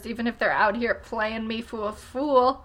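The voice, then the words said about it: Brief weird put-on accent. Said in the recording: “I don't know why I got a weird accent when I said that”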